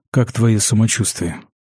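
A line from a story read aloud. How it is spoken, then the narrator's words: Unexpectedly soft question. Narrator (Russian): Неожиданно мягко спросил Ангус, сам себе удивляясь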